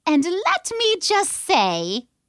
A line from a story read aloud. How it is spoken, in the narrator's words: Zlot piped up